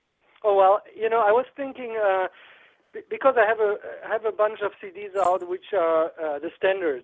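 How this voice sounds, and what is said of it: Slight German accent. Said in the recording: “I still have a little accent”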